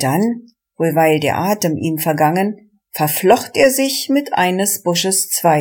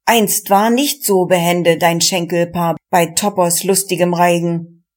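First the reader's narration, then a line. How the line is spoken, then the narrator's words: Calling out. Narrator (German): rief der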